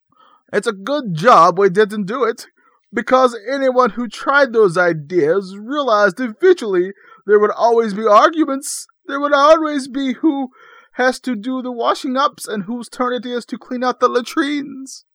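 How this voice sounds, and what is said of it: Imitates another person's accented voice. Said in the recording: “I'm really good at impressions, and especially impressions that involve some type of accent”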